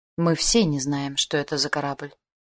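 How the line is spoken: Sigh. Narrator (Russian): вздохнул капитан

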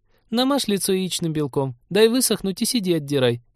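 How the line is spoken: Snide suggestion. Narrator (Russian): ехидно предложила Полина

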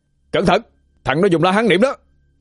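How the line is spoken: Loud warning shout. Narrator (Vietnamese): Phúc Nguyên có hét lớn lên cảnh báo

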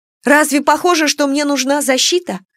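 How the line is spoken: Indignant question. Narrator (Russian): спросила возмущенно

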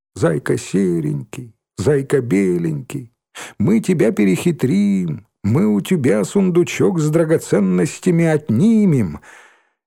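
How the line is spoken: Thin singsong voice. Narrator (Russian): Шмакова пропела тоненьким голоском

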